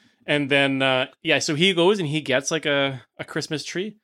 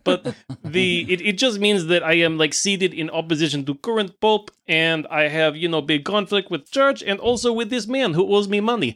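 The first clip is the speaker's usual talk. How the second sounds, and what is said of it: Put-on accent for a character. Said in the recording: “sorry, is my accent”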